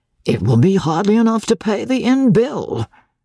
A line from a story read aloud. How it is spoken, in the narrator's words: grumbled the guardsman